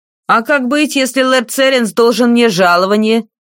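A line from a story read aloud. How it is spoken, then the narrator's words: Official's angry shout. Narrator (Russian): сердито выкрикнул один из чиновников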